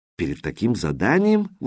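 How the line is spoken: Startled exclamation. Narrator (Russian): воскликнул Смайли, слегка ошарашенный

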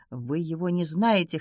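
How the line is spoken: Hoarse repetition. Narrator (Russian): хрипло повторила она

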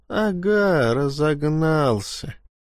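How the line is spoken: Muttering under breath. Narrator (Russian): проворчал себе под нос рыбак

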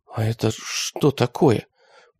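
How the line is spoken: Whisper after long silence. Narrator (Russian): прошептала она после долгого молчания

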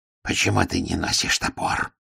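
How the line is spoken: Growled. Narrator (Russian): прорычал Ардент

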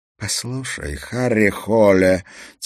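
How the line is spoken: Quiet emphatic hiss. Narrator (Russian): тихо прошипела она, сделав ударение на слово

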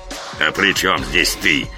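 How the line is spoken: Irritated absent-minded grumble. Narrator (Russian): раздраженно буркнул Кощей, даже не осознав, что к кому-то обращается

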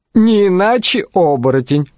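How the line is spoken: Chuckling. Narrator (Russian): хохотнул Шарли

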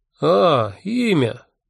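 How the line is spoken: Drawl. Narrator (Russian): протянул он

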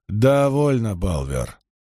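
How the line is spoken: Sighing. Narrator (Russian): Найл вздохнул

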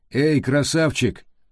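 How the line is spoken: Shouted. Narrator (Russian): крикнул Хадди

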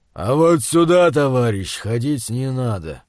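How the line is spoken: Calm low bass, giant. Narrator (Russian): невозмутимого вида высокий гигант, похожий на обезьяну, низким басом произнес

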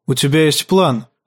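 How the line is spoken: Even voice over scraping. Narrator (Russian): сказал он ровным голосом сквозь скрип камня по стали

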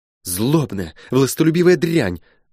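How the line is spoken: Angry exclamation. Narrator (Russian): в сердцах воскликнула она

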